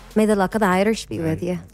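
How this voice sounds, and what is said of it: Put-on Irish accent. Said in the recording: “Any impression, like any accent you'd like to leave us with?”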